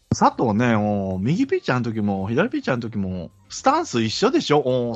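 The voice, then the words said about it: Imitates another person's voice. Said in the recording (Japanese): “モノマネでいきますね”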